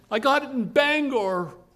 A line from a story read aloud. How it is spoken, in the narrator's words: blurted Dave